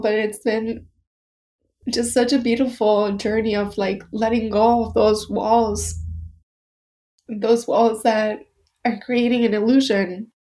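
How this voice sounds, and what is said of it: Emotional, choked-up voice. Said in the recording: “sorry that I'm getting emotional”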